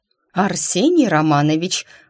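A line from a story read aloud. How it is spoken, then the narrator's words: Growled. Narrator (Russian): рыкнула я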